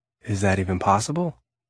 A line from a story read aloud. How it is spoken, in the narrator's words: Jonathan asked dryly